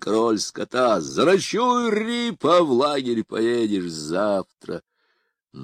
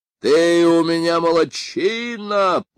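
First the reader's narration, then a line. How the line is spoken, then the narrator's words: Booming voice. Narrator (Russian): прогремел Бен Шептун из мрака королевской опочивальни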